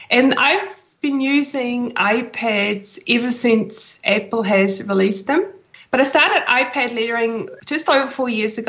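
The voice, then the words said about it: Swiss accent. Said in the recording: “I'm originally from Switzerland, hence my accent.”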